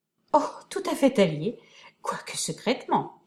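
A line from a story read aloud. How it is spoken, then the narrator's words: Laughing. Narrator (French): dit en riant madame de Tech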